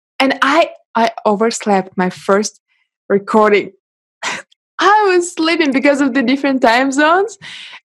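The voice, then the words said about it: Russian accent in English. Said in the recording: “I'm Russian and I speak English ... my accent”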